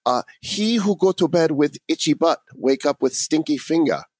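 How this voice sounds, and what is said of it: Put-on mock Asian accent. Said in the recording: “I have to put on the obligatory, you know, Asian accent in order to say it properly”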